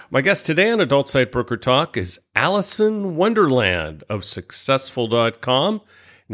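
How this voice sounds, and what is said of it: Trained radio announcer voice. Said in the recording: “You have such a great announcer voice. It's perfect for radio.”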